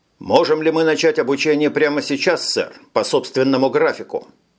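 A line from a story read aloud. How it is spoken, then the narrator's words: Plain. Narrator (Russian): спросил Тони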